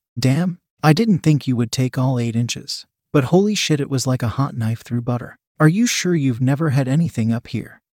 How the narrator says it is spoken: She laughed

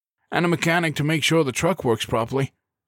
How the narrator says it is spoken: John added through his own laughter

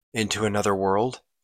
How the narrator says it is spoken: replied his lord

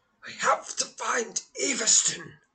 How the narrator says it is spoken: gasped Balibor

